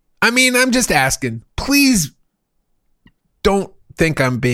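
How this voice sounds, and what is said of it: Usual voice. Nothing is said of it.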